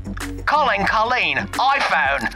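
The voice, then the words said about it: Imitated Australian accent. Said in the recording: “my Siri lady, is Australian.”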